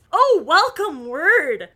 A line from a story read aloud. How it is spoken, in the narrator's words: cried Bess, rolling her eyes ecstatically